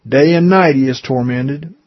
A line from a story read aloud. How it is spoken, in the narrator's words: the Lord said